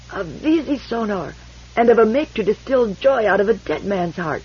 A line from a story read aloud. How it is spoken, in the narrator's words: He croaked